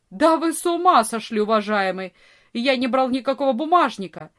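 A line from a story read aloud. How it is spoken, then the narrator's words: Furious shouting. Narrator (Russian): Вор понял, что перед ним не полицейский, и яростно закричал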